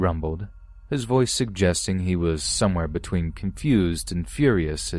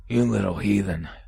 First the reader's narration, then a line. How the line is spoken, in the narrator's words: he spat through his teeth, his face red with anger